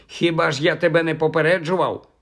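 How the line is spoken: Grumble. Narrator (Ukrainian): буркнув Кальцифер

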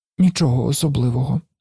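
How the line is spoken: Child muttering. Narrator (Ukrainian): пробурмотів малий

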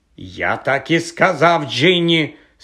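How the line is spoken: Angry reply. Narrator (Ukrainian): сердито озвався Персі

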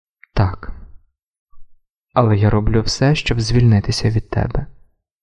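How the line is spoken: Quiet, calm, detached. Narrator (Ukrainian): мовив він тихо і спокійно, ніби це стосувалося не їх

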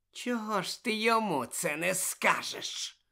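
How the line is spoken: Hiss. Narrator (Ukrainian): просичав Снейп

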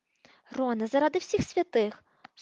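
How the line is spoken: Stern reproach. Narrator (Ukrainian): суворо дорікнула йому Герміона, хоч сказане їй сподобалось

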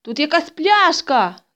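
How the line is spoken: Shouted. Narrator (Ukrainian): закричав

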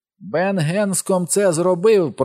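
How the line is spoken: Shrill squeal. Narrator (Ukrainian): проверещав той голос

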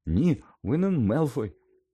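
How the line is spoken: Exclaiming. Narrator (Ukrainian): вигукнула Герміона

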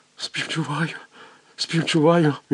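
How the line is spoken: Trembling fervent mutter. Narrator (Ukrainian): Його вже всього тіпало, і він ревно бурмотів

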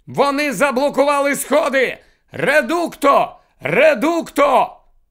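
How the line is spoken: Distant shout amid fighting. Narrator (Ukrainian): знизу знову долинув гамір сутички, і хтось закричав

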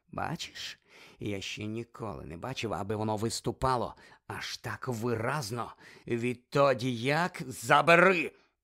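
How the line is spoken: Growl. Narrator (Ukrainian): прогарчав Снейп

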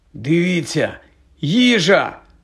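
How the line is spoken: Exclamation. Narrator (Ukrainian): вигукнув Рон

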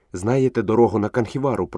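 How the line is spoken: Whisper. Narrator (Ukrainian): прошепотів Мауглі

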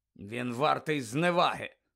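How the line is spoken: Grumble. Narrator (Ukrainian): буркнув містер Кравч

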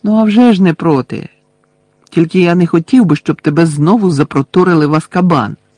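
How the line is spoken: Exclaimed. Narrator (Ukrainian): вигукнув Гаррі

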